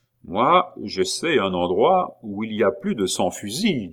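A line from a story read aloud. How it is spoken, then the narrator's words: Plain. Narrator (French): dit Pitou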